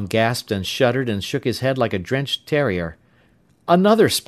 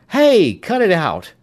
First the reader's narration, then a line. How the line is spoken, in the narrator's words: Tom cried out